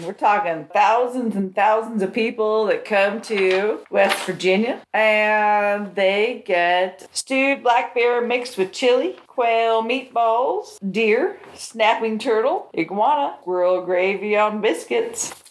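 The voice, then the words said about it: Put-on West Virginia accent. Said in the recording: “I love how you got an accent all of a sudden. ... we didn't have that accent, but this is West Virginia.”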